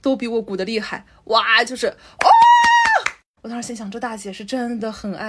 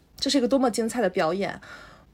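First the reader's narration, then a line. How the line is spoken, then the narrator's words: Gentle older woman. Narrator (Chinese): 声音也很温柔 一个阿姨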